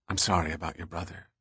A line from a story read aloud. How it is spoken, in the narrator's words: she said softly